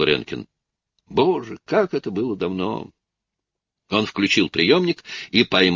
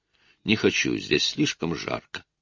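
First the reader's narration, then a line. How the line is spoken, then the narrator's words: Plain. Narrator (Russian): ответила Розамунда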